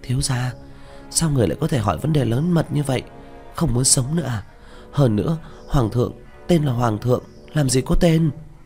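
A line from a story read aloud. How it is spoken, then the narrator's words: Frightened hushed voice. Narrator (Vietnamese): Miêu Nhi sợ hãi, hạ giọng nói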